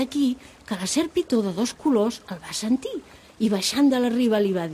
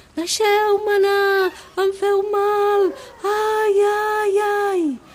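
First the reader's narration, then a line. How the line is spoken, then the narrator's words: Little elephant crying out. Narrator (Catalan): el petit elefant començà a cridar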